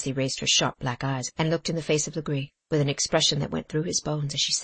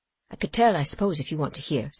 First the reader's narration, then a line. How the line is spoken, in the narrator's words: said Cassie dryly